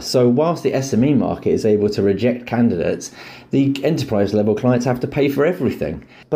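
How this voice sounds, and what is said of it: British accent. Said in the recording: “is British, not just from his accent”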